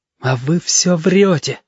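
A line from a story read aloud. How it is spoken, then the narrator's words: Breathed out, near tears. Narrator (Russian): выдохнул ежики, потому что очень хотелось заплакать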